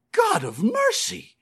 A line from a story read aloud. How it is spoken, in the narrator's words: he suddenly cried